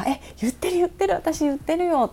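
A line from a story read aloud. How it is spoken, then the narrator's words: Excited, lively talk. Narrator (Japanese): ってパパと盛り上がってて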